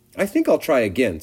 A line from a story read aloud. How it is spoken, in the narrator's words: said Wilbur, cheerfully